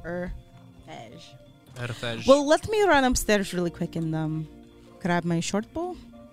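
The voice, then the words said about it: Put-on accent. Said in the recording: “the accent you're doing”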